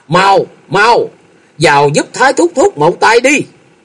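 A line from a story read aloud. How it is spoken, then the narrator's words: Panicked shout. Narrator (Vietnamese): Thôi Dân thất kinh hét lớn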